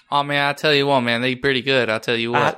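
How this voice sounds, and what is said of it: Lazy put-on Southern drawl. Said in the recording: “I now have Boomhauer over here. ... I try and do a Southern accent, I just be Boomhauer. It's very lazy.”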